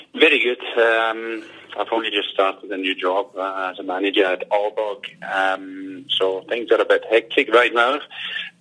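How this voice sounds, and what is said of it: Danish speaker with Scottish accent. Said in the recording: “you sound far more Scottish than me ... and you're Danish ... you're sounding so Scottish”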